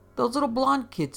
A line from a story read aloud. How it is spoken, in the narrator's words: yelled